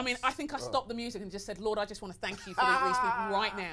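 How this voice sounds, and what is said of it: Foreign, non-American accent. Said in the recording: “My accent ... There's a lot of people who sound like me where I come from ... foreign accent”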